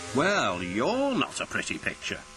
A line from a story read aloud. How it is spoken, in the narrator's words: sneered the painter